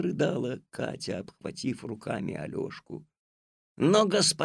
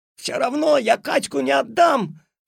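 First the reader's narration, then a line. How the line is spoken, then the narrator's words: Struggling boy's shout. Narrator (Russian): отбиваясь изо всех сил, закричал Алешка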